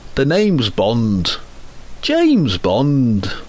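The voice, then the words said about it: James Bond impression. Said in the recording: “I can do a great impression of James Bond”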